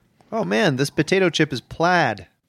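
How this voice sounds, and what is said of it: Laid-back grunge dude voice. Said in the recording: “Here's my impression of a grunge chip. ... I can picture a man in Seattle saying that in, like, 1990.”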